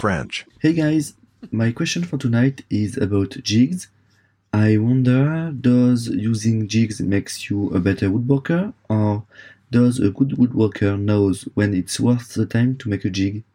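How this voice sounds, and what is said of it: Strong French accent. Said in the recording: “He's French ... Outrageous accent ... French classic”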